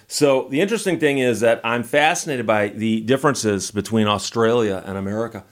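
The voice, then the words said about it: American accent. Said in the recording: “I kind of think they have me on the show because they think my accent is funny, and my accent to them probably is funny. It's got that funny American accent.”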